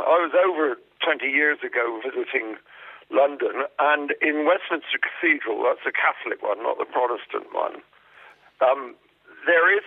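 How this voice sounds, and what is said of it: English accent. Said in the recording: “Is that an English accent I hear there ... Oh, indeed I do, yes.”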